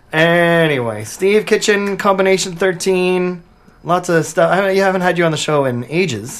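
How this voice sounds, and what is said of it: Hoarse, partly lost voice. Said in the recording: “My voice is still kind of gone”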